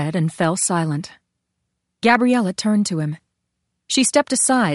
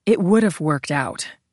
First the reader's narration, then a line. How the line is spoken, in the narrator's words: she said gravely